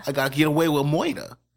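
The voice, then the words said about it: Put-on New York accent. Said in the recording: “I don't know what accent that was supposed to be. That sounded like New York Jew.”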